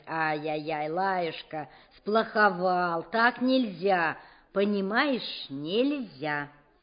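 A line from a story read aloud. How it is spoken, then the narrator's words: Gentle scolding. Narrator (Russian): ласково выговаривать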